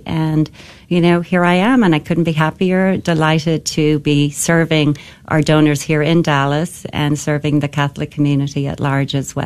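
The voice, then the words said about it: Beautiful accent. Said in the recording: “that beautiful accent itself”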